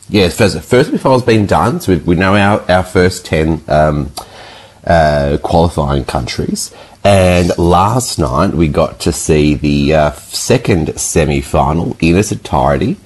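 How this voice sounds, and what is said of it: Hoarse, fading voice. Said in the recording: “my voice is slowly disappearing from my body.”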